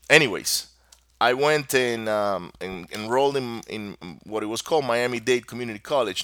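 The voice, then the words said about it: Spanish-speaker's accent in English. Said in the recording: “if you notice an accent ... it's because English is my second language ... I don't find myself thinking in Spanish anymore ... the accent is there”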